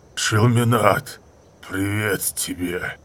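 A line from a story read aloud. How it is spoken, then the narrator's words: Rough, garbled growl. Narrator (Russian): прорычал он грубо и скомканно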